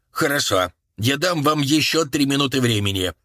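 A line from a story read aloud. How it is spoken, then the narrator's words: Menacing shout. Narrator (Russian): грозно крикнул Багли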